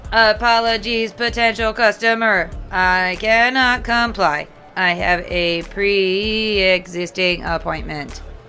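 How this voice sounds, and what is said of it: Weird character voice. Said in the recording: “You got a weird voice for a BD-69.”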